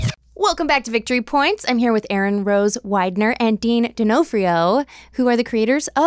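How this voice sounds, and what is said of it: Usual voice. Nothing is said of it.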